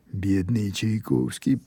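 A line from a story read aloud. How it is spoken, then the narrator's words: Quiet, from behind. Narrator (Russian): произнес кто-то тихо с заднего стола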